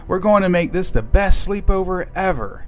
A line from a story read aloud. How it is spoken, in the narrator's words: exclaimed Emma